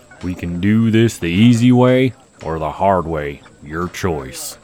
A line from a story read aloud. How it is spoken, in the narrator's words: grumbles